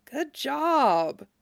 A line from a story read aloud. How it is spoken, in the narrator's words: murmured